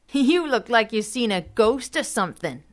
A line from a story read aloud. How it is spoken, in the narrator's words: Normie said, laughing